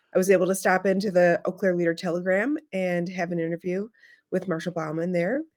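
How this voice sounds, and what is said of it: Slightly hoarse voice. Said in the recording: “you can hear I'm a little hoarse because all I do is talk on the phone while we're in the car”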